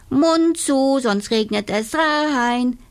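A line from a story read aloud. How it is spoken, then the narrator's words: Calling out. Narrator (German): rief Inga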